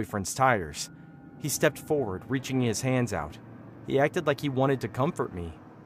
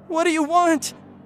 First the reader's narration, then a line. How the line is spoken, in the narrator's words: I screamed